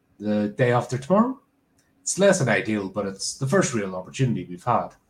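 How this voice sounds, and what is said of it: Acted character voice. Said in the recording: “I was doing character voice, not narrating voice.”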